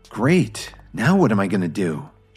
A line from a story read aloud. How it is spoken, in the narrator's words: she anxiously thought to herself